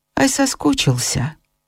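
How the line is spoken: Old man's smiling whisper. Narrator (Russian): Старик, улыбаясь, шепотом спросил

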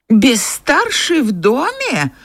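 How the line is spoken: Horrified old woman's exclamation. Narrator (Russian): в ужасе воскликнула старая мадам

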